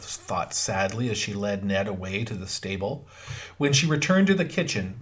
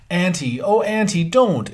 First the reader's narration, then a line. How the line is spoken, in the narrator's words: exclaimed Theodora impulsively